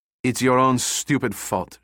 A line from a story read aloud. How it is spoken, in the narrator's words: she said coldly